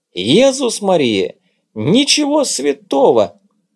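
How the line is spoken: Dramatic exclamation. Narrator (Russian): патетически воскликнул Дымша

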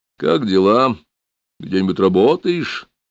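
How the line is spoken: Snort. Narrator (Russian): хмыкнул

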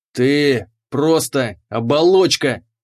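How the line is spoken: Thundering. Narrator (Russian): прогремел он

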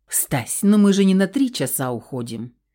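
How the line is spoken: Snorting reply. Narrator (Russian): Фыркнула я в ответ

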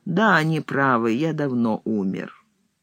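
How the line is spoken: Calm. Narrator (Russian): Блок спокойно сказал

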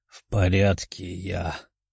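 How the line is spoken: Mumble. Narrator (Russian): пробормотал

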